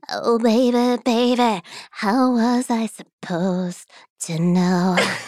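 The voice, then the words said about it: Imitates another person's voice. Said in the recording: “Britney Spears accent ... It's an impersonation ... Do Britney voice ... It's brilliant.”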